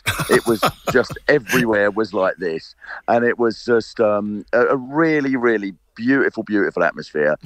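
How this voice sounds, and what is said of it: South London accent. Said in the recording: “It was just sort of so utterly South London. Anyone not knowing there was a match there must think that this, how I'm talking now, is a Leipzig accent.”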